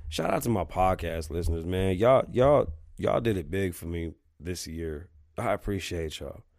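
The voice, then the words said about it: Rough, damaged voice with sniffing. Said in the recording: “Sorry for sniffing. ... my voice is still fucked up, guys. Like, my voice is really fucked up.”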